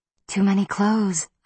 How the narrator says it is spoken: I said breathlessly

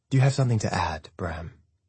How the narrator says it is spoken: my father asks

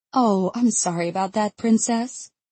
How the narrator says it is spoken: she says sweetly

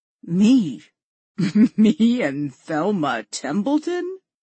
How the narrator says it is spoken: Walt choked out between fits of laughter

